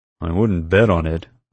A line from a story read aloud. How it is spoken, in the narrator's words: Roddy grumbled